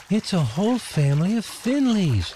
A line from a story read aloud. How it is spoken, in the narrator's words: gasped Delphi